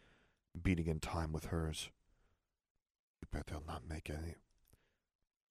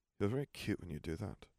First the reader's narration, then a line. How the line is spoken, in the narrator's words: he murmured